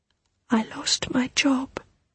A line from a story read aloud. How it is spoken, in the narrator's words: whispered Olya in the bread queue